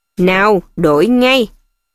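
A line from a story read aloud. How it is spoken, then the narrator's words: Dangerous menacing voice. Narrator (Vietnamese): bằng giọng nói đầy nguy hiểm nhất, thầy Snape bảo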